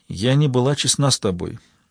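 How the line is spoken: Sad confession. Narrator (Russian): призналась Джозефина, печально

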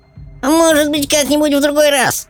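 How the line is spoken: Creature grumbling. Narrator (Russian): проворчал пескун

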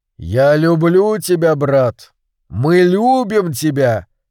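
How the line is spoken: Deep bass, giant. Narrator (Russian): пробасил великан

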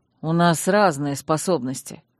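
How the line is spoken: Gloomy mutter. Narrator (Russian): хмуро буркнул

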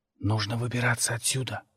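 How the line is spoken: Whisper. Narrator (Russian): прошептал

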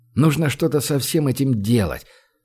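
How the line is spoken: Gloomy mutter. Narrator (Russian): хмуро пробормотал Гош

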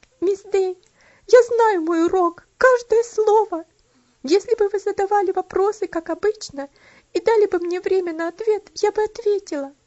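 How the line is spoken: Sobbing girl's speech. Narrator (Russian): Бедная Элси больше выдержать не могла, но, разрыдавшись, сказала

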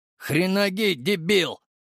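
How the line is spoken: Exhaled. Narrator (Russian): выдохнул я

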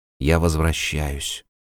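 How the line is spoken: Quiet. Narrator (Russian): сказал негромко он

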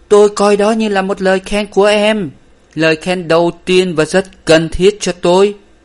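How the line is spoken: Excited exclamation. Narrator (Vietnamese): Anh ta reo lên

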